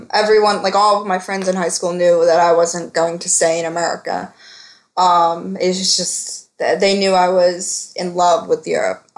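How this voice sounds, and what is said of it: Philadelphia accent. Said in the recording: “I have a Philadelphian accent.”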